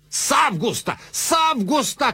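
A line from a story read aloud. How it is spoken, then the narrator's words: Shout. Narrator (Russian): кричал он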